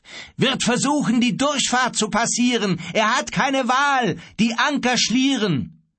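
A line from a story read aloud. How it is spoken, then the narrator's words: Calling out. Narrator (German): rief Grief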